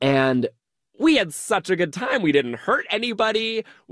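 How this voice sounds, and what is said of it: Usual voice. Nothing is said of it.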